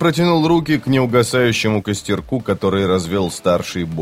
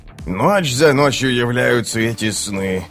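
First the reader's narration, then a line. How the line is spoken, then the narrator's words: Groaning. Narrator (Russian): простонал Круп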